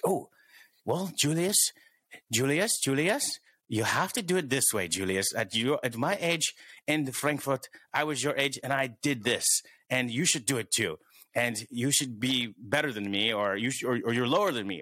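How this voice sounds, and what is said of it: Fake German accent. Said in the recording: “that was my fake German accent ... I can do it better ... he really can”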